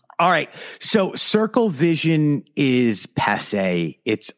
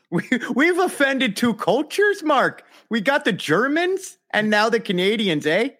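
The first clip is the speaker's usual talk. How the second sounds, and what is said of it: Put-on Canadian accent. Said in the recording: “You've got a nice Canadian, man... It's really good.”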